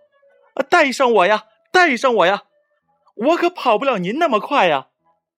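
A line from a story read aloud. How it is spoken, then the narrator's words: Desperate shouting. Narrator (Chinese): 青蛙扯着嗓子拼命的叫喊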